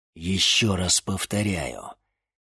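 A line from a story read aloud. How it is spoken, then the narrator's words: Warlock through gritted teeth. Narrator (Russian): процедил сквозь зубы чернокнижец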